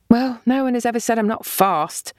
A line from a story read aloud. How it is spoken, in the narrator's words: Cecily said dryly